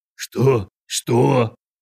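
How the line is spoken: Man, wheezing. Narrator (Russian): захрипел мужик

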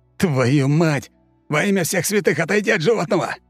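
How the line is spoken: Spitting shout. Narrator (Russian): Сплёвывая остатки зеленой слизи, прокричал он

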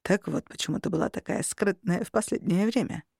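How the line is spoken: Mumbling. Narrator (Russian): пробормотал Костя

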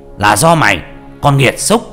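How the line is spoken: Hissing shriek. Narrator (Vietnamese): Vị pháp sư rít lên

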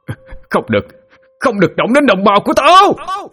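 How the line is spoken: Roaring shout. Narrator (Vietnamese): Tiếng hét to tới mức cứ như một con trọng đang gầm vang

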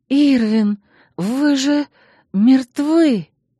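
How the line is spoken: Breathless, suffocating gasp. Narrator (Russian): Выдохнула, буквально задыхаясь от смрада и тяжести мужского тела

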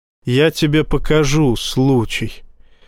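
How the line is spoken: Very calm. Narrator (Russian): очень спокойно произнес Боровский

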